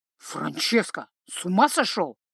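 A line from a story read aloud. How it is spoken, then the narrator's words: Displeased hiss. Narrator (Russian): прошипел Павоне, недовольный состоянием младшего компаньона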